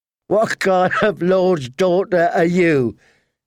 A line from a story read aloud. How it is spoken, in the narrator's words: said, laughing